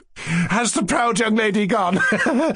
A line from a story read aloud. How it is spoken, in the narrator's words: she cried in hysterics